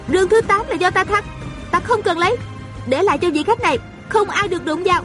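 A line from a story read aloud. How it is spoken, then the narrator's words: Shouting. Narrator (Vietnamese): A Cửu la lên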